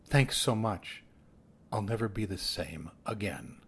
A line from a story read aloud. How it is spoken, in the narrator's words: In the midst of the embrace, she whispered